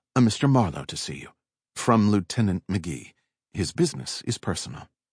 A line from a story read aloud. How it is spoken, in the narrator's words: Miss Fromsett said softly